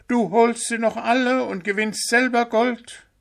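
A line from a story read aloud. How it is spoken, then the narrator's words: Shriek. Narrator (German): kreischte Pünktchen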